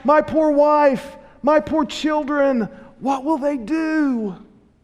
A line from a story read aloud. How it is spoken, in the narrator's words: the prisoner cried out